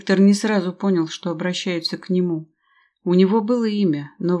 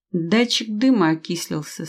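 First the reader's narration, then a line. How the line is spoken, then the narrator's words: Calm. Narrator (Russian): спокойно произнес Виктор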